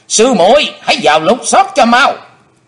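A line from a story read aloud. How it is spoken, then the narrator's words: Shout. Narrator (Vietnamese): hắn đã quát lên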